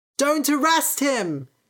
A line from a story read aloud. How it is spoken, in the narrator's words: shouted a boy